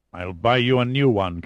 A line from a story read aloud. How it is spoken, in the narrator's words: Kazim growled